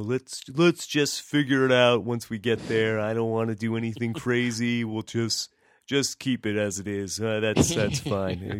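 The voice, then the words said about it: Good impression of Penner. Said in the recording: “That's pretty good impression there, buddy. I almost thought it was like Penner came into the show there for ... a second.”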